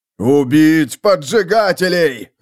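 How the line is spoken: Man barking. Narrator (Russian): рявкнул мужчина

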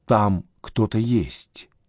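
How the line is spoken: Whisper. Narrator (Russian): шептала Света

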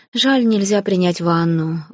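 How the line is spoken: Dejected sigh. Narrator (Russian): вздохнула я уныло

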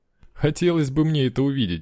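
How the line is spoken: Laughing. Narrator (Russian): рассмеялся я

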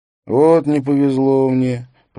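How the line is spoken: Drawled. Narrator (Russian): протянул Бэнкс

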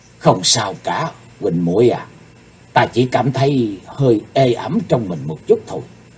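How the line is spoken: Soft reply. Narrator (Vietnamese): Chí Tôn khe khẽ đáp

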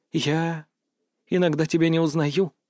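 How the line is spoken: Frightened whisper. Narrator (Russian): прошептала она, и в ее голосе впервые зазвучал настоящий, неподдельный страх

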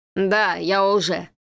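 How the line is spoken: Mocking laughing reply. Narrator (Russian): ответил страшный человек, издевательски хохотнув

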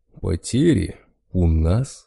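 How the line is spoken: Malicious chuckle. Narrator (Russian): злобно хохотнул медведь

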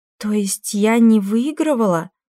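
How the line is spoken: Confused question. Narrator (Russian): растерянно спросила Кассандра

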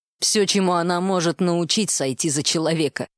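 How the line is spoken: Scoffing. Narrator (Russian): хмыкнул собеседник

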